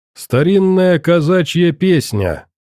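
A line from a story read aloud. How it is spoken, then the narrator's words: Sudden clear speech. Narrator (Russian): вдруг внятно сказал казак Василий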